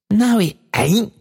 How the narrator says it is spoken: cried Meg in a burst of delight

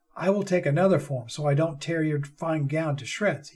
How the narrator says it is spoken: he chuckled

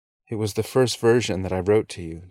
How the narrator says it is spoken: Jim reveals, his voice choking with guilt and shame

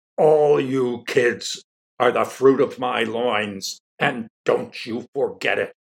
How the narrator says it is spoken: he bellowed

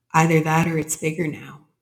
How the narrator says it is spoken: she said

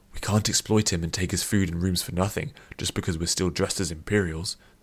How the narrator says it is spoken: Cid whispered back

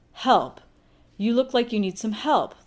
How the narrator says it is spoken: the awful woman says loudly, as if Shelley doesn't quite understand English

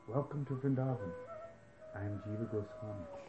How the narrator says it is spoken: he said softly

